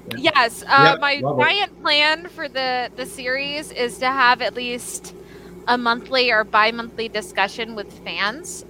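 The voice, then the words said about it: Strong Southern US accent. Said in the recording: “my giant southern accent”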